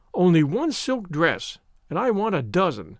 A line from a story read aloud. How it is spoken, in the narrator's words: Avery had said scornfully